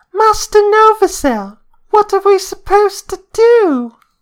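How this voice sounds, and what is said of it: Imitates a youngling character voice. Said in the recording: “That was my impression of a Younglings.”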